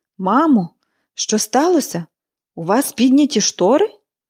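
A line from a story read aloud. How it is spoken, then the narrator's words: Astonished exclamation. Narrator (Ukrainian): вигукнула Міллі, вражено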